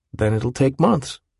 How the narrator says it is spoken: Willem said

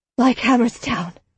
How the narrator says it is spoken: Helwes said, her voice a dry croak

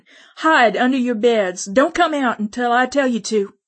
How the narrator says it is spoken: I yelled at the children

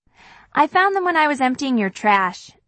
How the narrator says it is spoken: she says

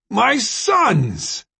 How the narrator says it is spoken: He yelled

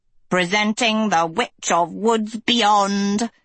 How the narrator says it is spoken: Hester cackled through tears

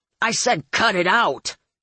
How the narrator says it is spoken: Curly snapped

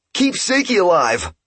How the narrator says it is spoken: Ipe yelled

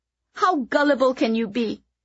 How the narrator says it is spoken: Kitty cried

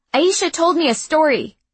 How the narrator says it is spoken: she blurted without thought

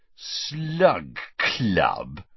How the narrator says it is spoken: repeated Ron, with a sneer worthy of Malfoy

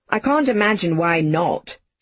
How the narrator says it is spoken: she said, snorting

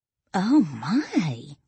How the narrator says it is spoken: Lily gasped

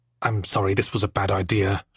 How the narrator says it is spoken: she muttered

